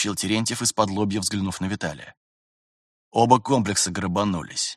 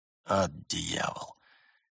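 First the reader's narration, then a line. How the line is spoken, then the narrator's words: Through gritted teeth. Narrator (Russian): процедил Терентьев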